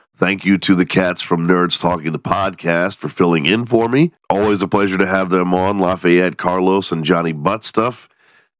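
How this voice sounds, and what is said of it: Congested, nasally voice. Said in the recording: “still a little bit congested, so I apologize if you can hear it in my nasally voice”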